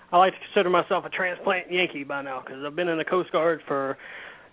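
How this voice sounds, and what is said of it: Southern American accent. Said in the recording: “a Southern boy like yourself ... not too much down south except for my accent”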